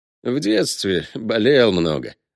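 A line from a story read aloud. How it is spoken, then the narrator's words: Sad smile. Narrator (Russian): грустно улыбнулся гость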